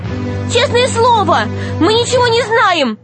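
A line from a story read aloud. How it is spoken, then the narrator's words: Shouting. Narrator (Russian): закричала Алиса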